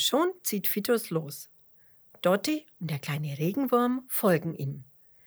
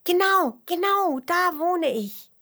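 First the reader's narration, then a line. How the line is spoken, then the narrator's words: Calling out. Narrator (German): ruft der Regenwurm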